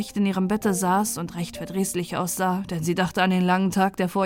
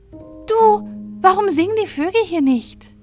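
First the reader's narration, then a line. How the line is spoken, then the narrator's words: Called out. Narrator (German): rief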